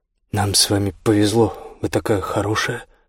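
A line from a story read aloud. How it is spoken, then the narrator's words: Plain. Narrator (Russian): сказал Мартин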